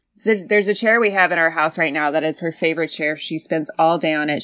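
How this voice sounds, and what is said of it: Mock serious voice. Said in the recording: “This is very serious. That's why I'm talking serious voice.”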